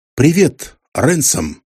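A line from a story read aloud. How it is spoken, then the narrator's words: Very calm. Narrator (Russian): очень спокойно сказал я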